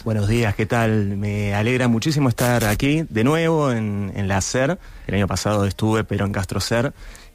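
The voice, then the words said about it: South American Spanish accent. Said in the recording (Spanish): “acento sudamericano”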